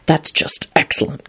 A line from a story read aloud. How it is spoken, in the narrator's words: Quentin muttered